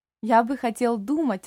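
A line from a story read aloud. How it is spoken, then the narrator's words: Joyful old man. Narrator (Russian): радостно ответил старик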